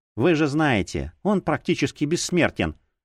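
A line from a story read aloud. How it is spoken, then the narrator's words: Sighing. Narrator (Russian): вздохнула Ринч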